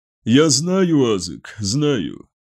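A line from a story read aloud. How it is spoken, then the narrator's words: Weary. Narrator (Russian): устало произнес Магнус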